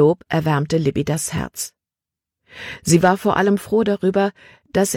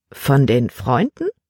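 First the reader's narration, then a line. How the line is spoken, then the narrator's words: Plain. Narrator (German): fragte Libby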